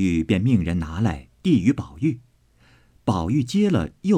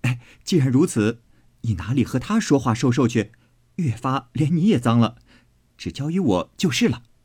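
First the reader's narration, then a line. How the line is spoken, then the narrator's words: Laughing. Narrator (Chinese): 宝玉笑道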